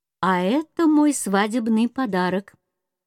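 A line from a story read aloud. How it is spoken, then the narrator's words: Cheerful reply. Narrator (Russian): отвечал весело принц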